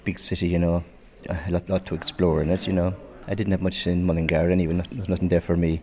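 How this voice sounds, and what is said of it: Irish Mullingar accent. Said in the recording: “you've kept your Mullingar accent? ... Just about. Definitely.”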